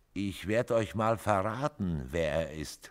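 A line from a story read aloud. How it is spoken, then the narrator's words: Mocking. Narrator (German): spottete Casey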